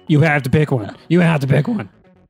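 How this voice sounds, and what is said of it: Impression of another person's voice. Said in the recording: “That was an impression of John, not you.”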